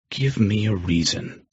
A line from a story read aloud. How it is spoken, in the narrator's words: I breathed out